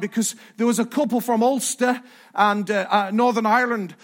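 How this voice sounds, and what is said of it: Poorly done Northern Irish accent. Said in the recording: “bad accent, I know”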